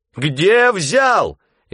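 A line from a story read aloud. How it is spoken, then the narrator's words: Shouting at full strength. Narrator (Russian): изо всех сил кричала Лизавета Васильевна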